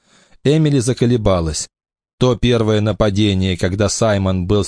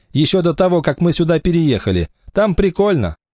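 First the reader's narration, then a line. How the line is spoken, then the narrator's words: Laughing. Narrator (Russian): рассмеялась Эмили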